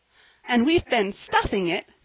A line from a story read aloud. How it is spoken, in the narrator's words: cried Polly merrily